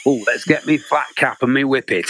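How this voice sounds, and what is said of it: Stereotyped northern English accent. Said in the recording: “what accent turns up if you see a drama ... It's Yorkshire, it's Lancashire”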